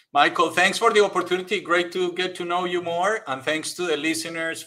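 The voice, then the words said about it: Charming Spanish accent. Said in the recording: “the Spanish accent. ... it's charming. It. it's absolutely charming”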